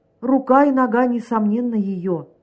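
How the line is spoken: Exclamation. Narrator (Russian): воскликнул начальник сыскной полиции

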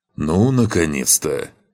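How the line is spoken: Grumbling. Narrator (Russian): проворчал павший

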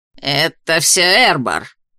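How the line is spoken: Spat out angrily. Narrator (Russian): злобно выплюнул Тадеуш

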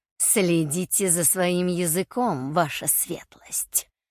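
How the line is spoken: Grimacing hiss. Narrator (Russian): прошипел Герх, скривившись

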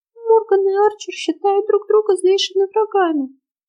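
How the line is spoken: Sudden, hollow voice. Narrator (Russian): вдруг глухо проговорила Ульрика

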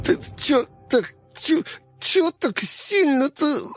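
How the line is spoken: Whining. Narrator (Russian): захныкал он

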